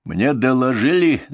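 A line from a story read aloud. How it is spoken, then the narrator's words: Began speaking, rudely interrupted. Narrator (Russian): заговорил он, но я его грубо перебил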